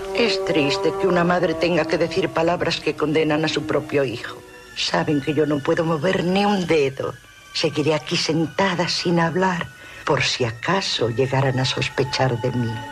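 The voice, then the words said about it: Man speaking in a woman's voice. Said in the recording (Spanish): “es una voz de mujer, pero el que está hablándose a sí mismo es Anthony Perkins”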